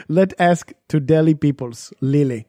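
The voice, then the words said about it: Pretty good put-on Indian accent. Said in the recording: “You got a pretty good Indian accent going.”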